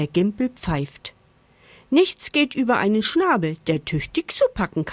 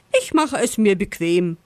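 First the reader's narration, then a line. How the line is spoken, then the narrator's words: Fox laughing. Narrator (German): lacht der Fuchs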